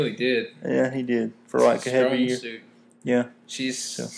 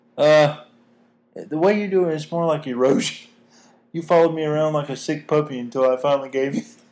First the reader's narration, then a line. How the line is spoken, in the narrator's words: She laughed at him and said